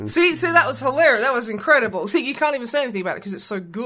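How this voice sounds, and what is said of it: Usual voice. Nothing is said of it.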